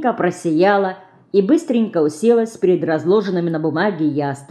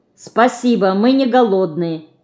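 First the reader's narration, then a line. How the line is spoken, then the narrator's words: Loud statement. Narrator (Russian): громко сказал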